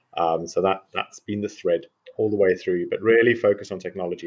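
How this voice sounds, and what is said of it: South African accent. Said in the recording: “I'm a South African medical doctor and geneticist, so that's my weird accent.”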